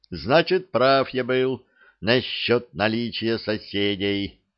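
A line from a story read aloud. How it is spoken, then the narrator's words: Shouted. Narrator (Russian): Кричавший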